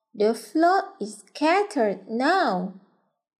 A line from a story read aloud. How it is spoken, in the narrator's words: he said